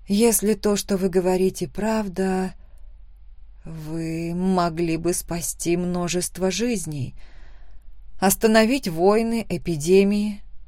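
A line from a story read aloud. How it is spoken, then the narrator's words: Whispered. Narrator (Russian): прошептала я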